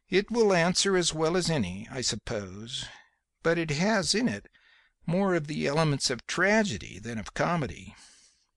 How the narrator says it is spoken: she replied calmly

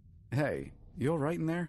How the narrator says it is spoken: a voice outside called out

